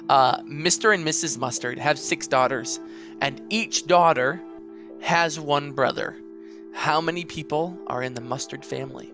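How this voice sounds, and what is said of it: Put-on classic American accent. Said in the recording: “I'll do it in a classic American accent.”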